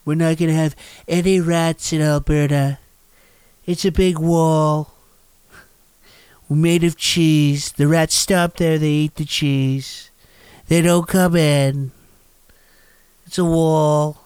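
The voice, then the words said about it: Bad Donald Trump impersonation. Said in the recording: “do a bad Donald Trump impersonation.”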